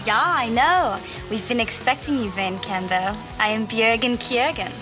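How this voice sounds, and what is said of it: Exaggerated Swedish accent. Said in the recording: “I love your accent... I'm from Sweden.”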